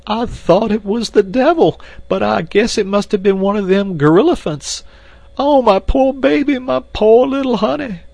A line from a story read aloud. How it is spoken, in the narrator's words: And again Esmeralda broke into uncontrollable sobbing